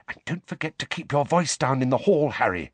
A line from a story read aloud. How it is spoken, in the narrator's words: Hermione whispered